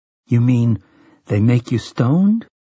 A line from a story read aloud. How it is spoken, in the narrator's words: Jake asked, rather uneasily